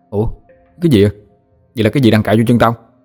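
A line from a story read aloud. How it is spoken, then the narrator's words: Startled, stifled cry. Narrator (Vietnamese): giật mình, định hét lớn lên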